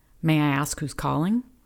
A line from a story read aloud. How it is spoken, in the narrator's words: Her delay irritated Deidre, but she managed to keep her voice level